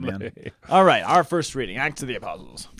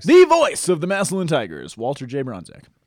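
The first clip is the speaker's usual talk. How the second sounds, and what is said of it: Radio announcer voice. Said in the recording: “radio voice ... you have a great radio voice”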